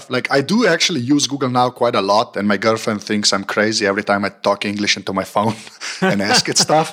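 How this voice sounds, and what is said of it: Eastern European accent. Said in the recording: “my, you know, Bond villain sort of Eastern European kind of accent”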